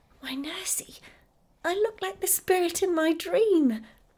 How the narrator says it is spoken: she started back, exclaiming

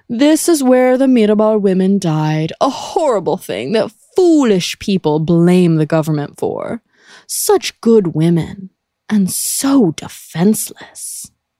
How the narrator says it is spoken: he said pompously

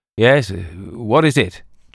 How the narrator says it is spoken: Jack Hardress called out sleepily

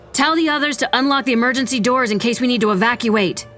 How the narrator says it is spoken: Vera shouted

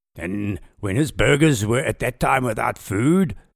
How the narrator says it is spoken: thundered De Wet

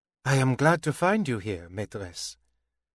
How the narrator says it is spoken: she said, more gently than she might in the ambassador's hearing

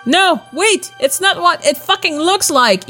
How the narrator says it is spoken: he shouted

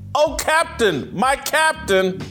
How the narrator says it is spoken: The boys staged an impromptu classroom insurrection, shouting

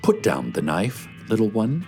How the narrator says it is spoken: he says in a gentle voice

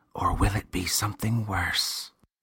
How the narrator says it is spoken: The boy whispered

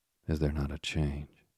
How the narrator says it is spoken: said, in a doubtful and meditative tone

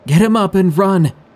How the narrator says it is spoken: screamed

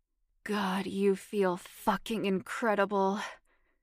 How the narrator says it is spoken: Stephen moaned when he was all the way inside her

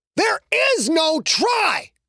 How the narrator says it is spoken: Quentin screamed at the entire team

